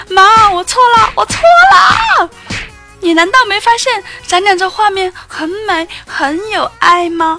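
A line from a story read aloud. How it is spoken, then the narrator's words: Shouting while dodging. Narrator (Chinese): 我一边躲一边喊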